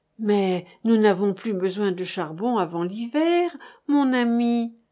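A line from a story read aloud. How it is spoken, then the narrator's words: Timid sigh. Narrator (French): osa soupirer Madame Hilaire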